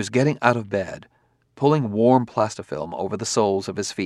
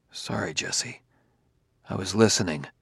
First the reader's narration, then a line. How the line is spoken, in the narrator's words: He said huskily